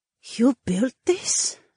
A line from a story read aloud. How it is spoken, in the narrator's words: Cecilia asked in a hushed tone